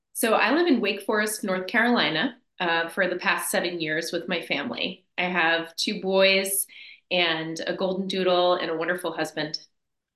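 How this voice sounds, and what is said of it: East Coast New Jersey accent. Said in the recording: “I can detect an East Coast accent there ... you've got some Jersey in the house”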